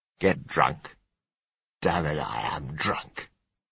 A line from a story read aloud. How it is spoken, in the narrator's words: he said scornfully